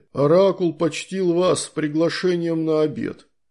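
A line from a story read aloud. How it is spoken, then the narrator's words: Booming voice of a big man. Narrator (Russian): прогудел громила в жестком скафандре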